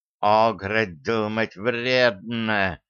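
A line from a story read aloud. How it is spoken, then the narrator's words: Hissing. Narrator (Russian): прошипел Шарль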